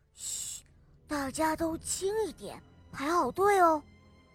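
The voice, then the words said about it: Quiet whispered speech. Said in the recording (Chinese): “小声的跟别人说话”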